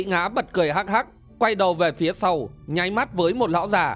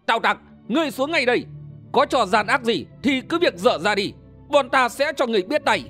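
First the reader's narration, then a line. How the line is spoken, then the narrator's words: Hot-tempered shouting. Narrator (Vietnamese): Đơn Minh và Hồng Trấn nóng tính, hét lên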